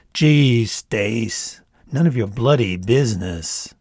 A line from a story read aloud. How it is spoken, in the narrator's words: Eyes still closed, Mitzi groaned